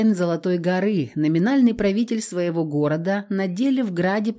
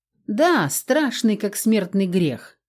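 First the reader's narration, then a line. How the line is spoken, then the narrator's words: Calm. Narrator (Russian): спокойно подтвердил Кик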